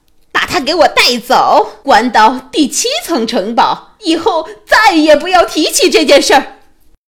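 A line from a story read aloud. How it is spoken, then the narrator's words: Queen roaring. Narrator (Chinese): 皇后吼道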